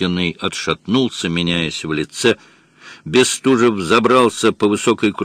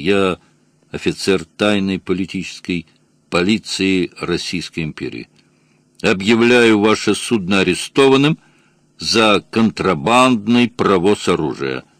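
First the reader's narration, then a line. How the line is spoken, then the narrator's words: Calm speech. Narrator (Russian): сказал Бестужев, спокойно продолжал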